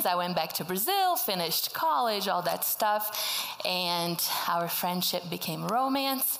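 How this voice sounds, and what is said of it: Slight Brazilian Portuguese accent. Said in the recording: “I am from Brazil ... spoke Portuguese my whole life. That's why I talk like this, have a little accent.”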